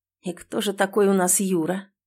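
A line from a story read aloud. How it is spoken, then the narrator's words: Hoarse quiet question near ear. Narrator (Russian): хрипло и тихо интересуется Эмиль, наклонившись к самому моему уху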